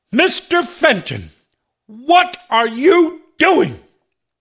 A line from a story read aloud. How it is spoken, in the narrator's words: bellowed